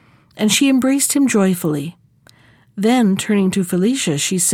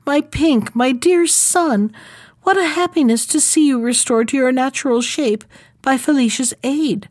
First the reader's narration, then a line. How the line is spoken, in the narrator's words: she cried